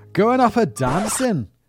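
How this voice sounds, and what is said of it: Poor attempt at Scottish accent. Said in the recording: “read in a Scottish accent ... please excuse the terrible act”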